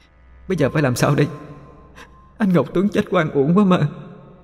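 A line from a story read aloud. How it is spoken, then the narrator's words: Sobbing. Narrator (Vietnamese): Mai Trinh nức nở nói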